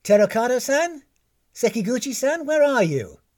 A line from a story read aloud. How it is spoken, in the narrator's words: she called out